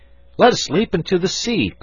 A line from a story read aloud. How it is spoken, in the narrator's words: cried Fritz